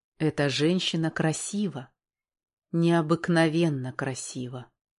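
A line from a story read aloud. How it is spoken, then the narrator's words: Insistent inner whisper. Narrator (Russian): Сердце настойчиво шептало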